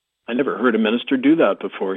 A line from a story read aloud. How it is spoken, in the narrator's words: he said